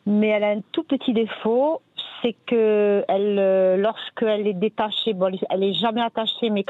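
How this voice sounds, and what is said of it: Pleasant southern French regional accent. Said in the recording (French): “vous avez un joli accent ... vous avez du soleil dans la voix”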